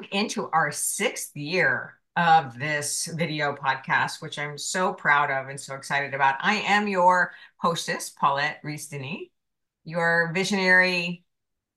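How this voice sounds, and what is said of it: Husky voice from a cold. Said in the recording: “with a little cold today. So pardon my beautiful, sexy voice”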